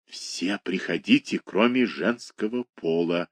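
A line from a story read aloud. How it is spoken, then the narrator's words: Whisper. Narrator (Russian): шепнул он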